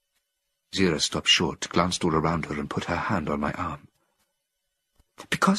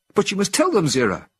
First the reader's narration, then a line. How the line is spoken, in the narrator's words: cried